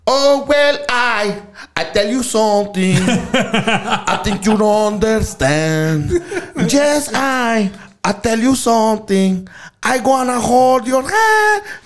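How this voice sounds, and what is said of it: Accented singing imitating a band singer. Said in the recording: “This guy with the accent was doing it.”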